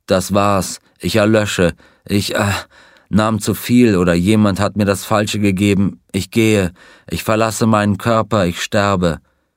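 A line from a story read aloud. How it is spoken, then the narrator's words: Groan. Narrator (German): Er stöhnte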